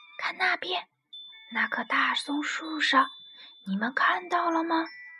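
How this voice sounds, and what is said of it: Quiet, hushed whisper. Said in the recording (Chinese): “爸爸突然小声说”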